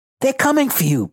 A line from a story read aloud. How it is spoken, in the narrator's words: Bastion gasped out